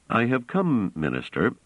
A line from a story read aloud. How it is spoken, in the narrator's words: said Trevise calmly